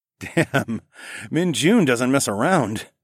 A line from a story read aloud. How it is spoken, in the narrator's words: I laughed